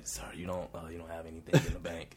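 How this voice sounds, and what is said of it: Whispered line. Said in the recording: “try to whisper it a little bit”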